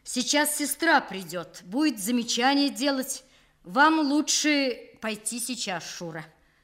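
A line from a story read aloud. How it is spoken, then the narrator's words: Loud after angry cough. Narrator (Russian): Он яростно откашлялся, рассердившись на свой сорвавшийся голос, и громко сказал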